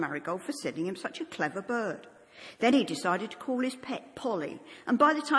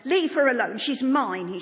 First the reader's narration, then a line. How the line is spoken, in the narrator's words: he shouted